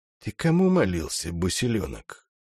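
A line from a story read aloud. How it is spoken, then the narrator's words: Barely audible. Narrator (Russian): еле слышно осведомился у Одиссея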